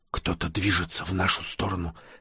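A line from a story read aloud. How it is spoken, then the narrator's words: Whisper close to ear. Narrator (Russian): склонившись к самому уху Всеволода, прошептала она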